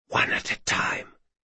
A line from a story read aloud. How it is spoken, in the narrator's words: she whispered